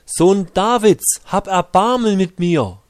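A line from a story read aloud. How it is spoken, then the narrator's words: Shouting ever louder. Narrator (German): er schrie nur umso lauter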